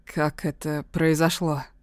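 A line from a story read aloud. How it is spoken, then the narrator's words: Hoarse question. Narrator (Russian): хрипло спрашивает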